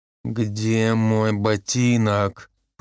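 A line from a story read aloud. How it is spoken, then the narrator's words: Hissed. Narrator (Russian): прошипел майор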